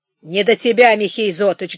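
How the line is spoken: Rough, curt interruption. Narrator (Russian): грубо остановил его Вахрушка

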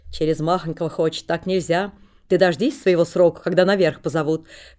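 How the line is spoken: Stern. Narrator (Russian): говорит строго кучер

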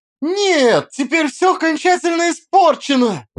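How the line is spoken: Exclamation. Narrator (Russian): воскликнула Алиса

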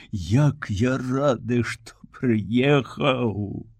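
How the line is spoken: Very serious whisper in ear. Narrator (Belarusian): неяк вельмі ж сур'ёзна, казычучы вуха, шапнуў

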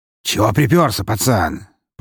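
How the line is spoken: Hoarse, unfriendly. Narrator (Russian): прохрипел он совершенно недружелюбным тоном

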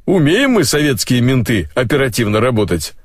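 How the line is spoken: Chuckling. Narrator (Russian): хохотнул Тахирыч

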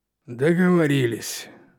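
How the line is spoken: Exhaling. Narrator (Russian): выдохнул он наконец

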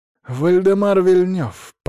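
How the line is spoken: Angry rumble. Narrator (Russian): пророкотал злобно

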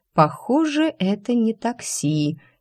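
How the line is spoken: Quiet. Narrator (Russian): тихо произнесла я

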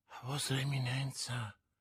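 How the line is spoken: Murmur. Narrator (Italian): mormorò Bonacieux

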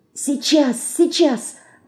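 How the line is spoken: Whisper. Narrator (Russian): шептала Анюта

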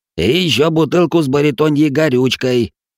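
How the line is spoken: Old man shouting after. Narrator (Russian): крикнул в спину старичок

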